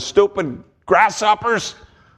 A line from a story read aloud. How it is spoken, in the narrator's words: He hollered